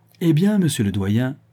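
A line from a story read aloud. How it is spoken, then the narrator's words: Triumphant. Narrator (French): dit d'un ton triomphant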